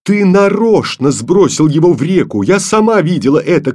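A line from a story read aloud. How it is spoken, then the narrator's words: Angry shout. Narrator (Russian): крикнула Таня сердито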